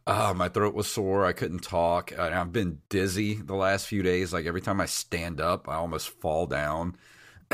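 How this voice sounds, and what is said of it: Much lower, deep voice from illness. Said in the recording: “my voice is like 8 octaves lower than it normally is. So I actually might sound kind of sexy right now”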